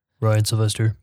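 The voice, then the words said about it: Mock radio announcer voice. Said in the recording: “this nice radio voice ... It's got to be a little nasally. ... that to me sounds like a 14-year-old boy.”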